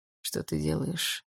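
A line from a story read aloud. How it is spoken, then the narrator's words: Quiet. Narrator (Russian): тихо спросил он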